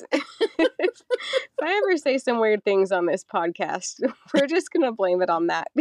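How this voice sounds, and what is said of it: Unusual, off-sounding voice. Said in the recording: “I'm getting over being sick this last week. So that's why my voice is like super weird”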